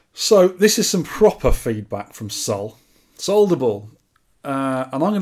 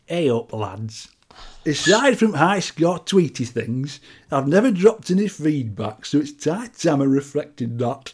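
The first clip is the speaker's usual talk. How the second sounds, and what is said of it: Put-on elderly Yorkshire accent. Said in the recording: “I'm going to read it in a Yorkshire accent ... coming from an 85-year-old Yorkshire pensioner”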